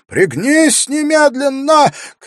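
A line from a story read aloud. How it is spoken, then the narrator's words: Urgent shout. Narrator (Russian): крикнул ему Вакир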